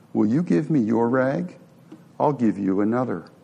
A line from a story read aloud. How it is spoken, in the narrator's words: Quietly, he walked to the woman and asked